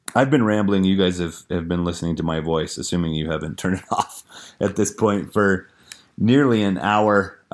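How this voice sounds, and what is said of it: Strained, fading voice. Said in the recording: “as you can probably tell, I am losing my voice.”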